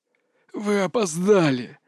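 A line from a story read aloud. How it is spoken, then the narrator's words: Snarling rasp. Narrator (Russian): захрипел упырь, оскалившись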